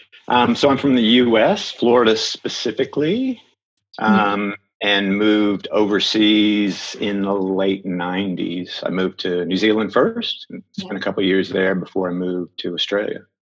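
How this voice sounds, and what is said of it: Non-Australian accent. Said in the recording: “that obviously is not an Australian accent.”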